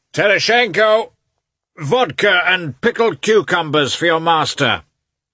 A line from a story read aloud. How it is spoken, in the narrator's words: he shouted, evidently enjoying the sound of his own voice